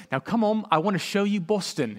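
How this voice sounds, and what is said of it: Imitated British accent. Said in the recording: “in her British accent”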